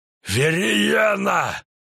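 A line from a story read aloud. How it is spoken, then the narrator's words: Barked again. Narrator (Russian): снова рявкнул он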